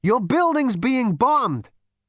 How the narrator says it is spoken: Zaphod shouted in his ear

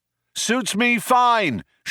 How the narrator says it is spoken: shouted Zaphod back

